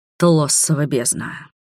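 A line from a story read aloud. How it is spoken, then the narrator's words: Muttered. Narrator (Russian): пробормотал Конрад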